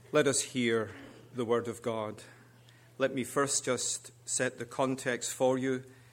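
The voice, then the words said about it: English accent. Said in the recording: “what she meant by my accent ... He could have said, "Mummy, is that man from England?"”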